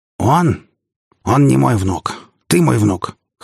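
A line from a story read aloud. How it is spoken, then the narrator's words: Hoarse. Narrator (Russian): хрипло произнесла она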